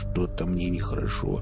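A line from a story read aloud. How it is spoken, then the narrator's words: Queasy mutter. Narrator (Russian): пробормотал Велес, только что вспомнивший незабываемое ощущение полета и жаркого поцелуя с почвой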